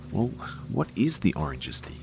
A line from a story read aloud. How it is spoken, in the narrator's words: I demanded in a whisper